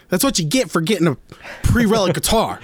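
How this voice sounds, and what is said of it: Imitates another person's voice. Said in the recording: “good Will impression... I felt like I captured the spirit”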